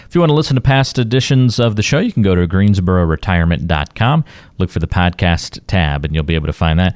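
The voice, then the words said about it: Slight northern accent. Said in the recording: “I don't know where that accent came. It almost a little northern there”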